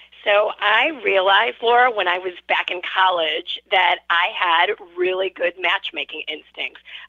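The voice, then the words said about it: Midwestern American accent. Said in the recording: “Midwestern accent”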